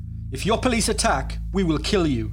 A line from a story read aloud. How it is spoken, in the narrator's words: Salim snapped at PC Locke